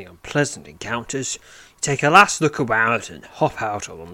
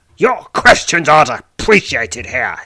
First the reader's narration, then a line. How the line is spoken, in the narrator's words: grumbles